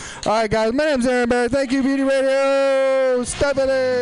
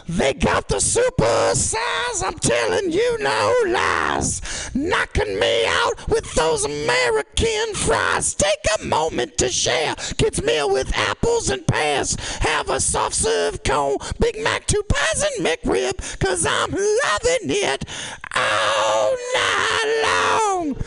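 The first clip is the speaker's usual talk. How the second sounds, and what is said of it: Sung imitation of a rock band. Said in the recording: “My impression of AC/DC doing a McDonald's commercial”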